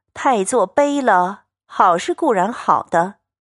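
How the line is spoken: Sighing together. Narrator (Chinese): 众人 俱点头感叹，说

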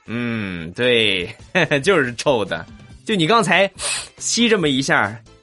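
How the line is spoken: Teacher, with a laugh. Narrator (Chinese): 老师当时笑了笑说

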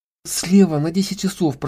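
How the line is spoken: Sudden frightened whisper. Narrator (Russian): прошептала она вдруг, испугавшись

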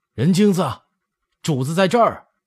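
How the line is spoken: Calling out. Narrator (Chinese): 王尔烈就喊

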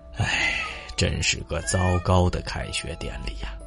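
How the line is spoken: Long sigh. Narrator (Chinese): 他长叹了一口气，说

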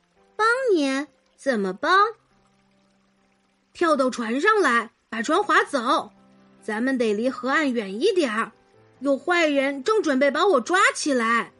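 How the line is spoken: Small boy whispering. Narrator (Chinese): 一个小男孩小声说

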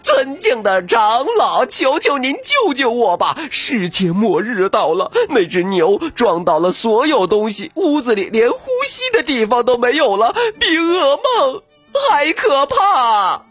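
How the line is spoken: Crying out. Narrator (Chinese): 他哭叫着说

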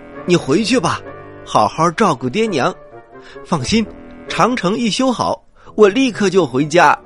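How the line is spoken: Worried straining loud shout. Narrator (Chinese): 范喜良担心孟姜女吃亏，挣扎着，对孟姜女大声的喊着

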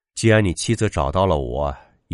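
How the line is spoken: Disappointed sigh. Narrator (Chinese): 毛正失望的摇摇头，叹息一声说道

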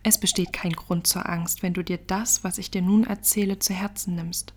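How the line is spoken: Calm. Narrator (German): sagte ruhig

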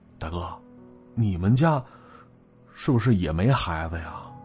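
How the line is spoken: Slow question. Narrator (Chinese): 我缓缓的问了他一句

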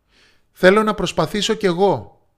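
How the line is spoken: Loud. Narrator (Greek): είπε δυνατά

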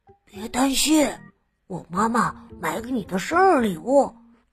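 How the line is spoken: Soft whisper. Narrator (Chinese): 小熊…小声耳语道

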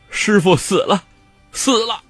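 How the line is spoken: Crying. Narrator (Chinese): 韦小宝哭道

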